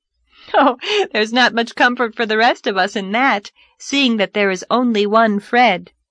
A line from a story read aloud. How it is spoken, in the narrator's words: laughed Anne